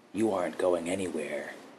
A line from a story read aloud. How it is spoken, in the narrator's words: he muttered to her